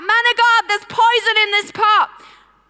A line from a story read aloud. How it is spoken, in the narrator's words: They shout out